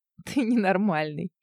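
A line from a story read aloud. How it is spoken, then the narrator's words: Giggle. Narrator (Russian): хихикнула я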